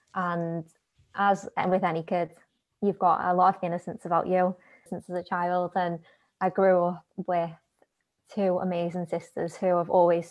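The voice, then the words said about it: Liverpool English accent. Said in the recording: “you'll probably tell from the accent, Liverpool”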